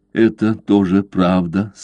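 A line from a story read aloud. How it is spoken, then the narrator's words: Said with heavy sigh. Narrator (Russian): сказала она и тяжело вздохнула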